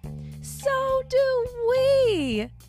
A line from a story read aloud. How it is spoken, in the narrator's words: his friends screeched